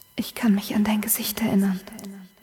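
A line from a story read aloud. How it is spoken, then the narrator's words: Whisper. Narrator (German): flüstert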